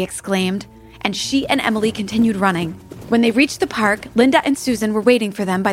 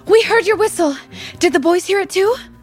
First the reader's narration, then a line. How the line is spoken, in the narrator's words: Molly asked breathlessly